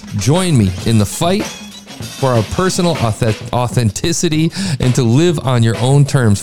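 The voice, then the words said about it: Rushed, fast reading, tongue-tied. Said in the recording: “trying to read it fast ... I end up getting tongue-tied as I read it”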